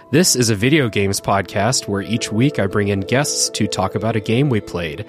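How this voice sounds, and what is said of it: Rough, unwell-sounding voice. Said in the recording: “COVID Recovery Edition, pardon my voice.”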